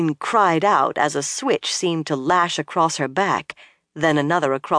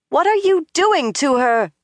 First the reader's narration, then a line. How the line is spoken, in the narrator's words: Min shouted